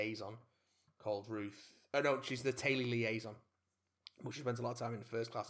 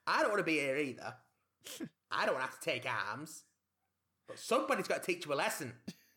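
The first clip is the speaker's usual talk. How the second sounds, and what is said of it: Put-on Yorkshire accent. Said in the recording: “using her native Yorkshire accent.”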